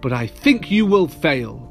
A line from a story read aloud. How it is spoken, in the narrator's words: sneered the bird